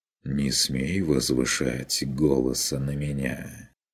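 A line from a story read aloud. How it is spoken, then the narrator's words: Soft. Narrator (Russian): Мягко проговорил майстер Мельхиор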